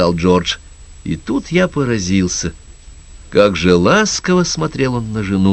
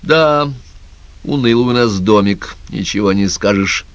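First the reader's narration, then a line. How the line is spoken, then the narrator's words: Gloomy pronouncement. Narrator (Russian): мрачно изрекла Энн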